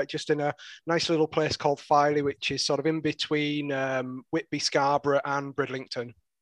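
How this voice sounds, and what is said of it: Strong Yorkshire accent. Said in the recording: “in case the accent doesn't give it away. Absolutely, very, very Yorkshire”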